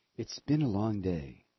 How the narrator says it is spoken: said her sister

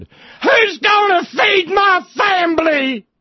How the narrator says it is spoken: the coal wives hollered

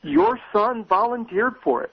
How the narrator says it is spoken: one of the Republican women shouted to the woman

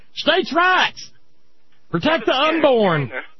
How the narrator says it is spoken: they holler

